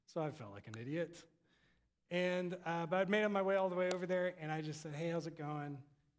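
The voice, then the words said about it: Texan accent. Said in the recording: “He asked me about my accent. I tell him I'm from Texas.”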